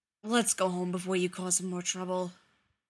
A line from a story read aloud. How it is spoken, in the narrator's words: Feely finally growled